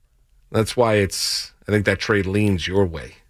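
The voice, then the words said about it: Sarcastic delivery. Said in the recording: “I was being sarcastic, by the way.”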